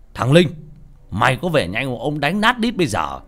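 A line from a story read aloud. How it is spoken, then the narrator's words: Shouted from the shore. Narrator (Vietnamese): ở trên bờ ông quát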